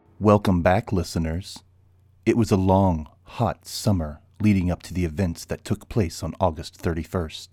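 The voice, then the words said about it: Grave American NPR-style radio voice. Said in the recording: “you're using one of those American, what the Americans call an NPR voice ... It helps me bring gravitas to the seriousness of a true crime podcast”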